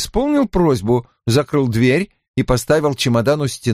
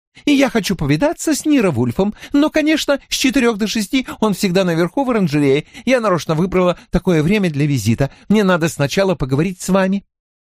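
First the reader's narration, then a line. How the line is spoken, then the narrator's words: Rapid chatter. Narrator (Russian): затараторила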